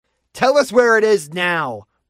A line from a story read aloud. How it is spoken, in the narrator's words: Bruce shouted